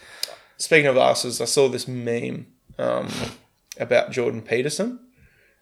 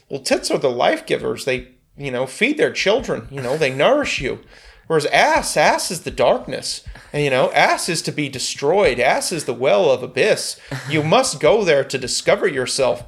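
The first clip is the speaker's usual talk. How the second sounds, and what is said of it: Imitates another person's voice. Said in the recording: “I kind of do impersonations, but I haven't done a Jordan Peterson impersonation for a long time”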